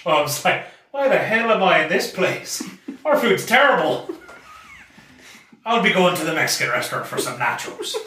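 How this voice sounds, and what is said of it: Put-on Irish accent. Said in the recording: “an Irish accent ordering Irish food ... I felt like I was sitting next to Conor McGregor.”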